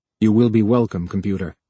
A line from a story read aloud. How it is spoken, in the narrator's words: said stiffly